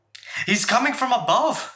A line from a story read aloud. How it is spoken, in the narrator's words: shouts Wolf